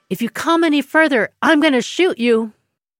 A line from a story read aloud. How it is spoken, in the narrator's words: shouts